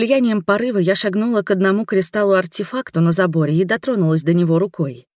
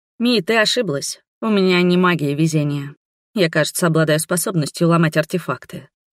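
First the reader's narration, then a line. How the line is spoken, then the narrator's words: Grumbling. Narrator (Russian): проворчала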